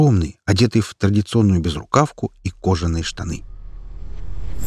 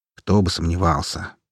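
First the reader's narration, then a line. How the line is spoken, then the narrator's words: Grumbled under breath. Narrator (Russian): проворчал я себе под нос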